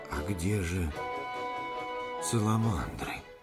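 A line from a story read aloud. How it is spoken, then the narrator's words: Hushed question. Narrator (Russian): вполголоса спросил кто-то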